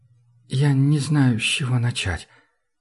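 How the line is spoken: Quiet. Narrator (Russian): тихо сказал

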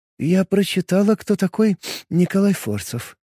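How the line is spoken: Quiet. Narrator (Russian): тихо сказала она

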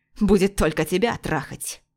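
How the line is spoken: Close low growl. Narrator (Russian): Последние слова он уже рычал ей в губы

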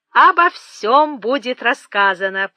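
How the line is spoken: Hasty exclamation, feigned carelessness. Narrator (Russian): поспешно воскликнул Том и продолжал с напускной беззаботностью

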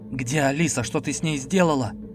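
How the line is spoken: Almost growling. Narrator (Russian): Я почти рычал, сам себя не узнавая

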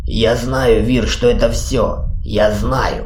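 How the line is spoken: Hoarse rasp. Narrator (Russian): прохрипел Ури

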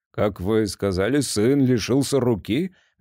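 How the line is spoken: Dead flat voice. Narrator (Russian): Мертвым голосом переспросил Грей

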